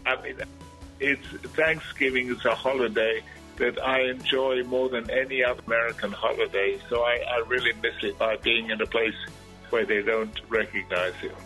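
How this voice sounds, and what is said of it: Noticeable foreign accent. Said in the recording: “my funny-sounding accent”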